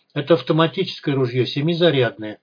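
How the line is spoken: Calm, persuasive. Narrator (Russian): Вадим говорил спокойно и убедительно

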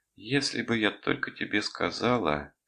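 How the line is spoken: Sad. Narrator (Russian): печально начала Рита

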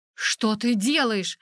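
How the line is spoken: Exclaimed. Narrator (Russian): воскликнул Райан

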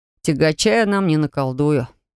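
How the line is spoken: Sad admission. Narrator (Russian): печально признался он

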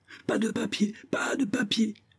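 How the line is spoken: Exclaimed. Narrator (French): s'écria Isaac Hakkabut

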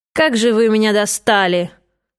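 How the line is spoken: Grumbling from behind. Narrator (Russian): ворчание у себя за спиной

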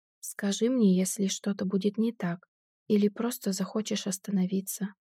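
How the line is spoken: Soft gentle speech. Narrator (Russian): мягко произношу я

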